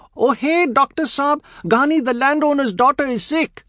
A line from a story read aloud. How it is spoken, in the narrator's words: Tai shouts